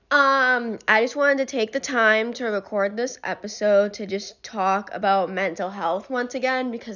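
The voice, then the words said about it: Sick-sounding voice. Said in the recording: “I'm sick ... if my voice sounds more disgusting and annoying than usual”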